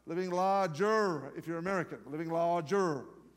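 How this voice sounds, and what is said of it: Poor put-on American accent. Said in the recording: “very poor attempt at an American accent.”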